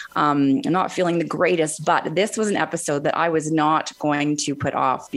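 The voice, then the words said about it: Sick, unusual-sounding voice. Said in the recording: “you might notice my voice isn't as it usually is today. I have COVID.”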